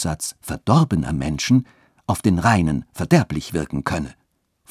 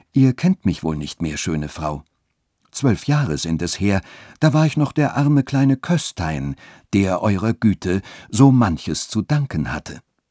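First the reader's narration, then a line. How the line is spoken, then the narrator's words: Refined tone. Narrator (German): sagte mit feinem Ton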